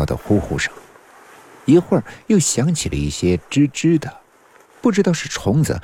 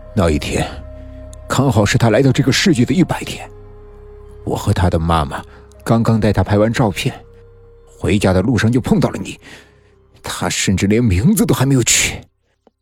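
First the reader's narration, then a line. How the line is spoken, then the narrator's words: Through gritted teeth. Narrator (Chinese): 陈嘉文咬牙切齿的说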